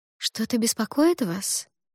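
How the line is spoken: Soft, soothing question. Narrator (Russian): мягким и успокаивающим тоном спросила

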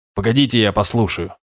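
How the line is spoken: Businesslike tone. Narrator (Russian): деловым тоном сказал

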